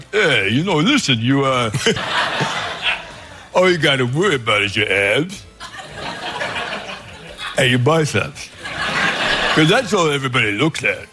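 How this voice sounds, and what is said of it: Sylvester Stallone impression. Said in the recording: “that's a pretty good Stallone impression”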